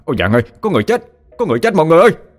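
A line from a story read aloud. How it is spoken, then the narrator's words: Panicked loud yell. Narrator (Vietnamese): anh vội hét toáng lên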